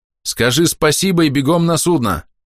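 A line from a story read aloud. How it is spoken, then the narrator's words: Shout. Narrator (Russian): осталось крикнуть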